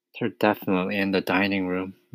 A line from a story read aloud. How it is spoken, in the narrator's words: Matilda whispered